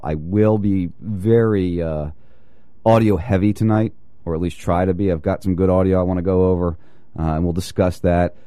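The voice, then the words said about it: Voice sounds sick and unwell. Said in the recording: “if you can't tell in my voice, I'm not feeling well.”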